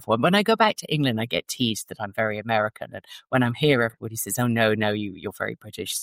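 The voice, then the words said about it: Flattened transatlantic British accent. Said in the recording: “is that a British accent? ... your accent has been flattened. You have that you have that transatlantic accent going on.”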